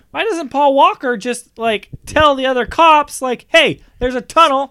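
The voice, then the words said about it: Yelling, loud frustrated voice. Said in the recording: “Stop yelling.”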